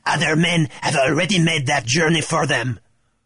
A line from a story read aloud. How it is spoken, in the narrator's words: old Parley cackled